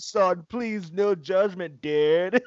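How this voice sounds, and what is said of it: Put-on Californian accent. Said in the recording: “Give me that Californian accent ... that's California ... That's perfect.”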